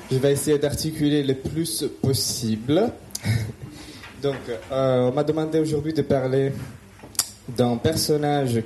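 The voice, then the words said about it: Italian accent speaking French. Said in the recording (French): “je suis italien. Donc j'ai un accent”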